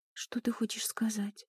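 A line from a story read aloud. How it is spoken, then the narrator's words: Quiet. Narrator (Russian): тихо спросила она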